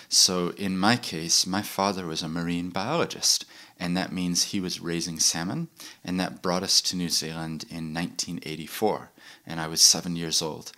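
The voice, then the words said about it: Non-New Zealand accent. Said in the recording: “the moment I open my mouth, people hear an accent ... despite the accent, I actually grew up in New Zealand”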